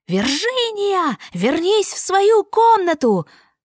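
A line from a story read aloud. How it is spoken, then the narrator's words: Yelling while running. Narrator (Russian): бежит миссис Клейборн и вопит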